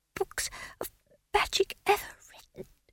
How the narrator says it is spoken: he whispered

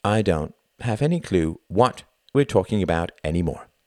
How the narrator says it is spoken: she said flatly

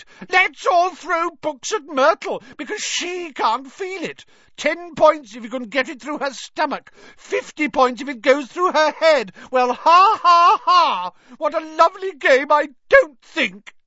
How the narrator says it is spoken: Myrtle shrieked

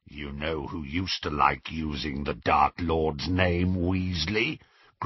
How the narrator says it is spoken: growled Greyback

